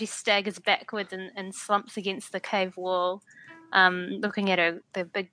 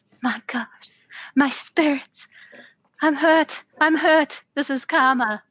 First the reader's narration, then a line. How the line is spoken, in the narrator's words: gasps